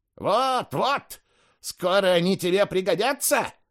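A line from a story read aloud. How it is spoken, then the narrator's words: Loud shriek. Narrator (Russian): завопила Евсевия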